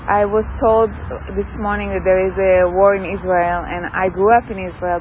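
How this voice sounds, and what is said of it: Speaks English with an accent. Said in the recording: “I also have an accent, doesn't make it easy”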